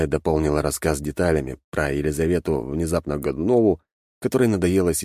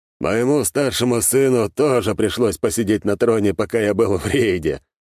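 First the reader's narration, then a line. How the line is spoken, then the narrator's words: Explaining with a chuckle. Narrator (Russian): хохотнув, объяснил Голицын-старший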